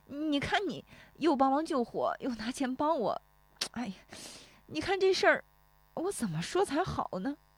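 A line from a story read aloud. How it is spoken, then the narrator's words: Choked up, tearful. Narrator (Chinese): 石有福说着又要哽咽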